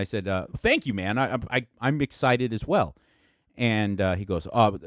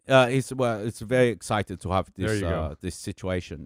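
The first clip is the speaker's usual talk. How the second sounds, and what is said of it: Heavy German or Austrian accent. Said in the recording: “he had a very heavy accent ... Sounds Austrian.”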